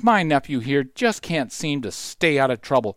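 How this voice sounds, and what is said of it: Exasperated tone. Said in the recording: “in an exasperated voice.”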